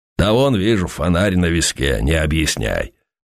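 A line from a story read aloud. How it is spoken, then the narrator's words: Deep bass voice. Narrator (Russian): сказал Плещей густым басом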